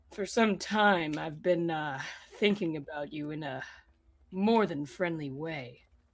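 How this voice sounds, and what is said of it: Smooth, seductive put-on voice. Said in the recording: “put on my smooth voice”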